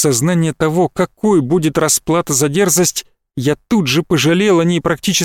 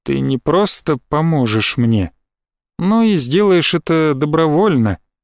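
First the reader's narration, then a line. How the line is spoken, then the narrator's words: Soft. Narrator (Russian): мягко сказал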